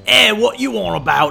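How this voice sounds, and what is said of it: Broken British accent. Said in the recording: “just this like broken British accent”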